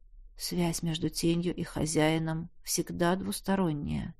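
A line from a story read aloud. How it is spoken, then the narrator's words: Quiet explanation, teacher. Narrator (Russian): тихо пояснил учитель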